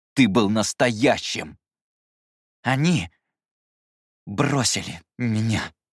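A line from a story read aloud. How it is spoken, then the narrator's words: Slow. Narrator (Russian): медленно проговорил Скэрилл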